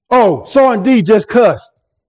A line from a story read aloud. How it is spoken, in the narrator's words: immediately called out